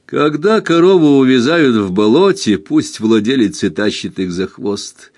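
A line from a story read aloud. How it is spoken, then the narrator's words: Laughing. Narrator (Russian): сказал, засмеявшись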